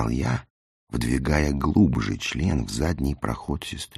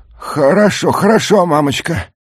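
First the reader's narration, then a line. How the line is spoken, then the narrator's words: Near moan, aroused. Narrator (Russian): Почти простонал я, чувствуя, как Зина выгибает задницу навстречу мне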